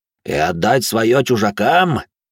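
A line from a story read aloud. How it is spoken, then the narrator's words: Growled. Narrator (Russian): зарычал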